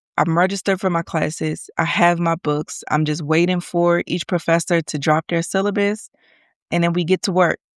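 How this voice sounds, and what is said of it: Congested, stuffy voice. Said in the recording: “Forgive me if I sound a little congested. ... just a little congested. So forgive my voice.”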